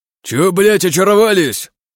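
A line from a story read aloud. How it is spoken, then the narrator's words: Shouted. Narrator (Russian): закричал бык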